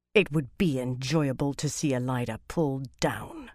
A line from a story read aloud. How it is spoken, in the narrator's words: she said in an unpleasant voice